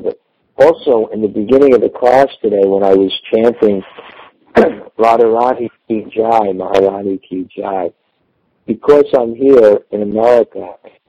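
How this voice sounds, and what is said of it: Slightly unclear, chesty voice. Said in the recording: “my chest is a little bit, so excuse me if my voice is not, 100% clear”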